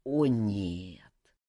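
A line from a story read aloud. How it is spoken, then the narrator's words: Groaning, stricken. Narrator (Russian): простонал сраженный Александр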